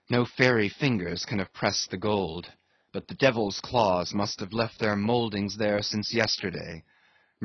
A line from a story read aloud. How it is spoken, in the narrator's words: murmured Starbuck to himself